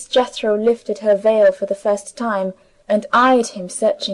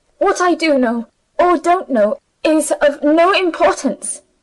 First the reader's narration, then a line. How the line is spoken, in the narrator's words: she answered sharply